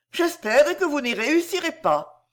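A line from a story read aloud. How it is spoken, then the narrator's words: Sighing. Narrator (French): dit Iris en poussant un soupir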